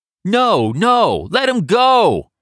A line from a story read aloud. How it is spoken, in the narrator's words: others in Canal Street's white crowd scream back